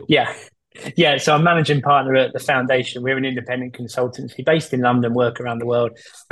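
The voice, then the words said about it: Strong Essex English accent. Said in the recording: “I thought it was a Texan accent I was listening... this is strong Essex.”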